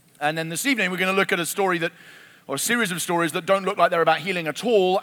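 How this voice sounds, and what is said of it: English accent. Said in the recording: “you'll get used to my accent if you haven't already ... they have an English accent”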